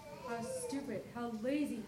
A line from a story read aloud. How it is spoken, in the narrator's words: he muttered